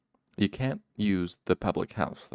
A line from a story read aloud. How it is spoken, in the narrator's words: mayor said firmly